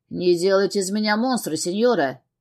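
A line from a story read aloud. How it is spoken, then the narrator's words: Smirking. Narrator (Russian): хмыкнул Габриэль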